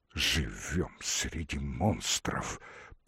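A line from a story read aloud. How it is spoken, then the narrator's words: Whisper. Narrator (Russian): пошептал Василий Васильевич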